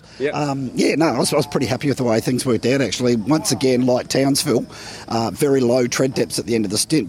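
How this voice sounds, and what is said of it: Very hoarse, strained voice. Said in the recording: “you are a little bit poorly ... I'm very hoarse ... it sounds painful ... he was struggling quite that badly”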